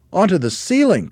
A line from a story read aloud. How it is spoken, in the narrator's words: cried one of the small monkeys